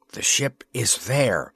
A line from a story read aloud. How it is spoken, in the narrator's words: he whispered in a voice of relief